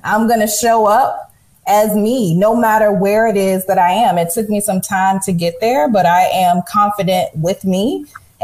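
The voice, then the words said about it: Southern American accent. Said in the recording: “sounding Southern.”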